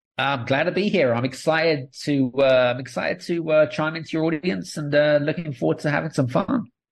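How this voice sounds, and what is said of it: British accent. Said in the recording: “I'm British. So I've got a British accent”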